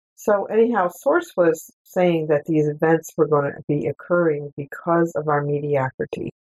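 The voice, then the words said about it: Froggy, hoarse voice. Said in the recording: “excuse my voice. ... I'm still a little bit froggy”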